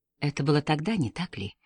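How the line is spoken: Soft question. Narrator (Russian): мягко спросил Пуаро

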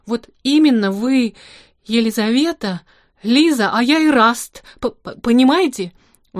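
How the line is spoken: Ardent exclamation. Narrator (Russian): воскликнул он с горячностью

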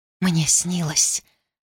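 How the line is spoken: Whisper. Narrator (Russian): прошептала Никия

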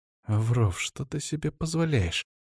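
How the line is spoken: Hissing. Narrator (Russian): прошипела мне Светлана

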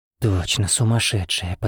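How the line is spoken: Shocked breathless exhale. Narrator (Russian): потрясенно выдохнул мужчина

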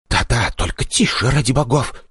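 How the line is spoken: Whisper. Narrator (Russian): перейдя совсем на шепот

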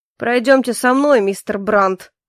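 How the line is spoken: General's commanding voice. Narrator (Russian): властным голосом произнес генерал

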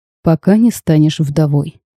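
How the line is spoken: Even voice. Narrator (Russian): ровным голосом отозвался Габриэль

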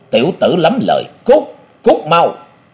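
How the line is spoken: Loud roar. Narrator (Vietnamese): Tên cao lớn ấy giơ cao cái búa rồi gầm lớn

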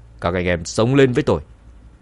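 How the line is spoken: Angry loud shout. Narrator (Vietnamese): Cao thủ dẫn đầu tức giận quát lớn

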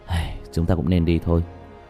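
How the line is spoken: Sighing. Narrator (Vietnamese): Diệp Thiếu Dương thở dài

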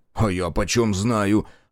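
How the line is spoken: Snapping. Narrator (Russian): огрызнулся Марков

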